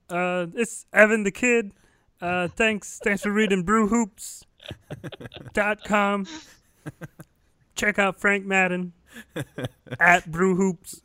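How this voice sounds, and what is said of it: Kermit-like Evan Turner impression. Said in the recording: “great Evan Turner impression ... Do you need a helium balloon to do that ... more of a Kermit kind of ... spot on”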